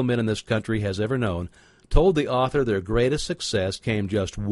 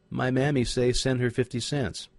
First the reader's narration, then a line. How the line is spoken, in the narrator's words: Meekly, the child replied